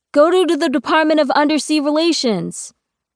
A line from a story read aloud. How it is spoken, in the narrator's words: someone shouts